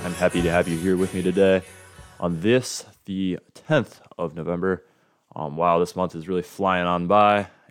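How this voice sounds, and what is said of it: Hoarse, lowered, partly lost voice. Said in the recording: “my voice sounds as if it took a trip down to the cellar ... I managed to lose my voice screaming at assorted players and officials ... at least I was able to regain it to a certain extent. It has not been able to sort of regain its typical perch”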